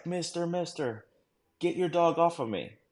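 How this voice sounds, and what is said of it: Middle Eastern accent, clear English. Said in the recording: “in Middle Eastern like accent, but it's like clear English”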